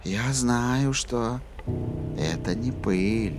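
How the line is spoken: Whisper. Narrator (Russian): прошептала красотуля

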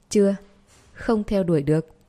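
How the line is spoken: Pained laugh after silence. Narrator (Vietnamese): Lộ Tinh Vũ càng im lặng lâu hơn, sau đó đau khổ bật cười

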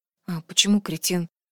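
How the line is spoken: Quiet question. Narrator (Russian): тихонько спросила Асин

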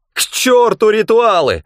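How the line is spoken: Yelled. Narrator (Russian): заорал он

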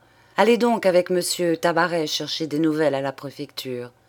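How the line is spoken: Brisk, lively speech. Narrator (French): dit Monsieur Daburon vivement

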